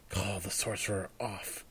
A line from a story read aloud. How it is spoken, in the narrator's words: whispered